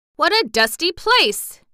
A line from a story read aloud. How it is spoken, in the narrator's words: he cried